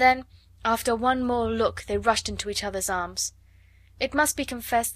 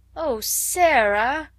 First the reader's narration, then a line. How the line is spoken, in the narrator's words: Ermengarde almost wailed in her reproachful dismay